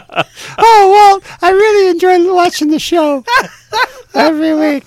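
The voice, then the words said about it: Imitates another person's voice. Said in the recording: “my Ruth imitation ... That's a great Ruth imitation.”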